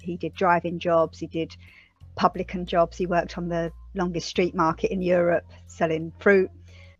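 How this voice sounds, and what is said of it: East London accent. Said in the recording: “if the accent doesn't give it away, we're an East London family”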